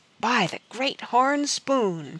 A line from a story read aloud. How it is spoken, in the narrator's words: Pitchpine Billy muttered in awe